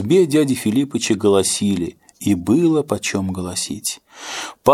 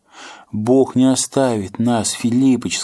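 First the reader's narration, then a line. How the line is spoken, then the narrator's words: Plain. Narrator (Russian): сказала жена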